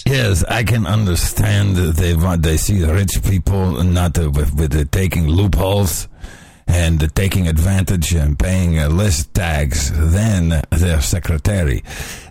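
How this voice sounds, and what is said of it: Impression of George Soros. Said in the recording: “do the Soros voice”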